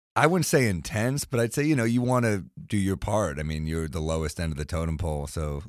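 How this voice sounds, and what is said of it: New York accent. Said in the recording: “tell from your accent you are a native New Yorker”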